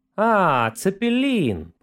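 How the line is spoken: Honeyed sweet voice. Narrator (Russian): повторил он прямо-таки медовым голосом

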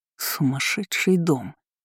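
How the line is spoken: Muttering. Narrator (Russian): пробормотал он

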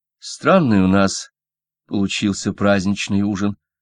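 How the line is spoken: Mutter. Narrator (Russian): пробормотал Сильвен

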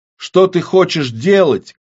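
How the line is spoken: Shout. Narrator (Russian): крикнул Кирилл

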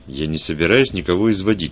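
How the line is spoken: Angry grumble. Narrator (Russian): сердито буркнул Вульф

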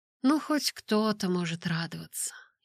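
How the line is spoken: Sighing. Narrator (Russian): я вздохнула

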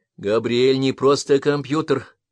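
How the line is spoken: Firm declaration. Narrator (Russian): твердым голосом заявила Миюки

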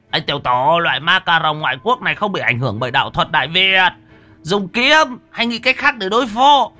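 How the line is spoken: Shouted. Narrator (Vietnamese): lão Huấn liền hét

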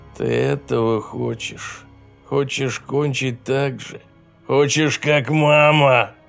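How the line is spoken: Growling. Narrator (Russian): Рычал он девочке

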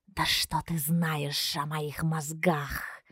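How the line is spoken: Hissing retort. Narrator (Russian): зашипел в ответ Каас

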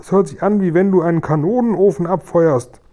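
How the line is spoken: Shouting. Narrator (German): schrie der Guri

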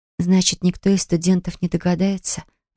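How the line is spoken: Breathless exhale. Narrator (Russian): выдохнула я

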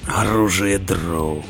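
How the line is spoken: Hoarse. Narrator (Russian): хрипло сказал Роди

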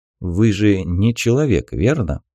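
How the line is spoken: Calm. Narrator (Russian): спокойно произнес командир, который понял это давно

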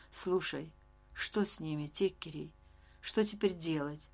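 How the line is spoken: Quiet, crushed question. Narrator (Russian): Леон будто пришибленный молчал, и лишь когда мы погасили свет, тихо спросил

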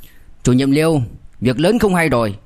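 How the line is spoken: Loud urgent speech. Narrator (Vietnamese): Nghiêm Vệ Đông lớn tiếng nói

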